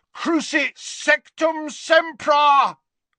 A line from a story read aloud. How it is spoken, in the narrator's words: bellowed Harry from the floor